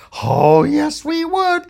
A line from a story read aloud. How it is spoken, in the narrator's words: shouted the cop